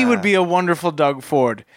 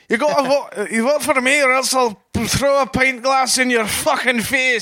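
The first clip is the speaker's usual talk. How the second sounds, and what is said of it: Put-on Scottish accent. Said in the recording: “how do you do a Scottish accent? ... I sound like Shrek there.”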